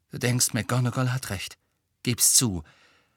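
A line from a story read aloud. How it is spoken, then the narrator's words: Angry. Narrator (German): sagte Harry wütend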